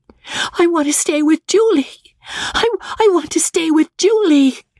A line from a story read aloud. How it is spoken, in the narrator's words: wailed Magnolia, overwrought, as the inexorable hand dragged her up the stairs